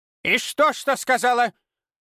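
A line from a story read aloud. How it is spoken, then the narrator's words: Barked. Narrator (Russian): рявкнула Ирма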